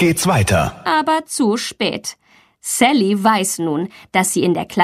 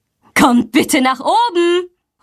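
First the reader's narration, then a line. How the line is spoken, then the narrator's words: Calls. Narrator (German): ruft sie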